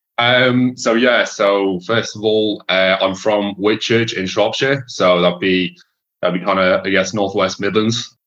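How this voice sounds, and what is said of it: Irish accent. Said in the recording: “people can obviously hear you've you've you've got an Irish accent”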